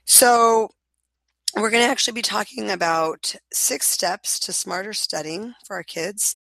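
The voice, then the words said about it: Slightly strange, sick-sounding voice. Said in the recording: “I have had a bit of a cold, so my voice sounds a little bit strange.”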